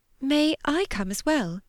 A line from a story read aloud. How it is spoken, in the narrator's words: Georgiana's voice came timidly